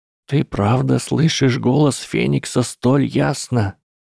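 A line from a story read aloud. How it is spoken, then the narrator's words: Sobbing, barely able to speak. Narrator (Russian): Из-за всхлипываний Гарри уже почти не мог говорить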